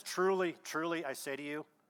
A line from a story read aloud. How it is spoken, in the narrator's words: says